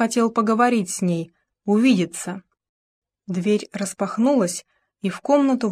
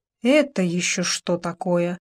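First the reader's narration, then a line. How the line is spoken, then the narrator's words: Angry hiss. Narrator (Russian): гневно прошипел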